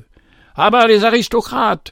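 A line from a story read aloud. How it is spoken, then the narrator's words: Woman's voice screaming. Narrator (French): hurla une voix qui semblait être celle d'une femme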